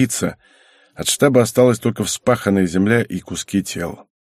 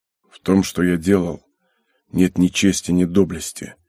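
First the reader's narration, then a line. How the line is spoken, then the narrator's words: Flat, muffled, emotionless. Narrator (Russian): глухо и без эмоций произнес Святов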